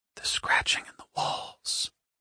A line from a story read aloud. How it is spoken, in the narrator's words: he whispered